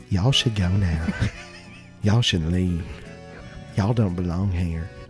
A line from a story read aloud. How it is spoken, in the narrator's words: whispered in her ear